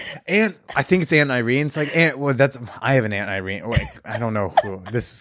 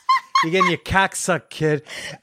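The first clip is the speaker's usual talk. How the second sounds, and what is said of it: Strong put-on accent. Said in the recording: “She had like a strong accent.”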